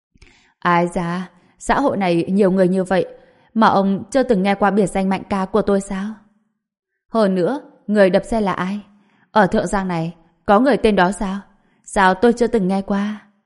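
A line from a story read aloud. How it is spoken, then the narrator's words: Man laughing loudly. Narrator (Vietnamese): Người đàn ông dẫn đầu kia cười lớn vài tiếng rồi nói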